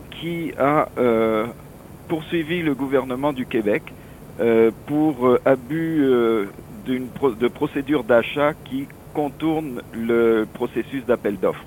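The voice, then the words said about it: French accent, not Canadian. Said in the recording (French): “mon accent, il est plus français que canadien”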